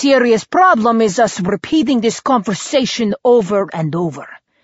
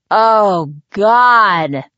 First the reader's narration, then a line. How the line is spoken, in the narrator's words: I groaned